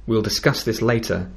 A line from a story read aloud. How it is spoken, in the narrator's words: he said